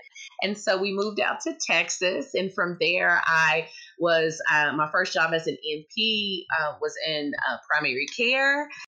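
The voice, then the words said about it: Southern US accent. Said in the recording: “listen to that accent ... it's from multiple places in the South”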